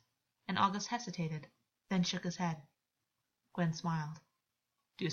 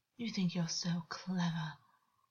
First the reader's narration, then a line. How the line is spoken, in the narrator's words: Augus breathed, but there was amusement coiled throughout his words, and he seemed not happy per se